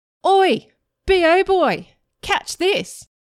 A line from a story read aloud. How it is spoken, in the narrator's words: Brian called out